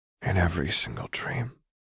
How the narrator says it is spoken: Lux whispered

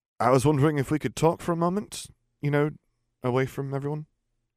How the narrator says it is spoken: began somewhat nervously

